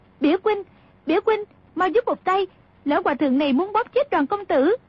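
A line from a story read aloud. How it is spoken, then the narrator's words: Terrified urgent cry. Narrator (Vietnamese): Nàng lại càng kinh hãi, chỉ sợ Cừu Ma Trí bóp chết Đoàn Dự, vội la lên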